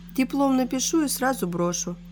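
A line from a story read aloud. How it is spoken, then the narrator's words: Innocent tone. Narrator (Russian): невинным тоном ответила та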